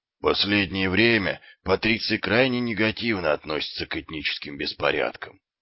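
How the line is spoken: Glum statement. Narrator (Russian): уныло произнес сержант Колон

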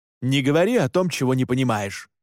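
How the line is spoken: Barked. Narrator (Russian): рявкнул Александр

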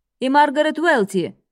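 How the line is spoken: Metallic announcer voice. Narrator (Russian): металлическим голосом объявляет ведущий

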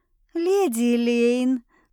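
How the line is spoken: Drawn-out fawning tone. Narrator (Russian): протянул кто-то заискивающе

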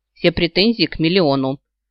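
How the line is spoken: Grumbling. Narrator (Russian): буркнула

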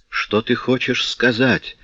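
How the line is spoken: Whisper. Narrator (Russian): прошептала она

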